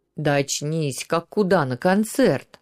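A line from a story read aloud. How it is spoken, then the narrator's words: Laughing. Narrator (Russian): Ирка засмеялась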